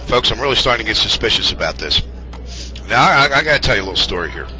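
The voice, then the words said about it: Hoarse, fading voice. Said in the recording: “I am losing my voice. This cold is still doing it.”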